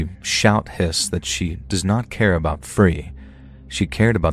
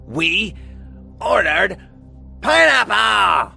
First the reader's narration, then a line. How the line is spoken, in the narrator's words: Colleen shrieked